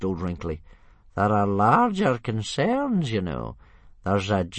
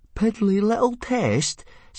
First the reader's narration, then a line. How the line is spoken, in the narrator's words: said Fishlegs indignantly